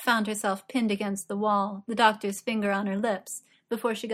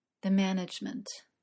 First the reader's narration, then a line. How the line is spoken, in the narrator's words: said, even more quietly than he'd done in the lift